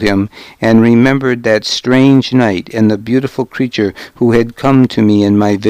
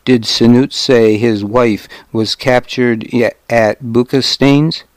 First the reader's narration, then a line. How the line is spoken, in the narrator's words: he asked